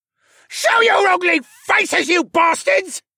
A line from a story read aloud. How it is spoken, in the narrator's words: Mohawk shrieked